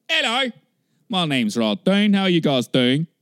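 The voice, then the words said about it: Put-on British accent. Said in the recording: “I'm going to go up and do this British voice.”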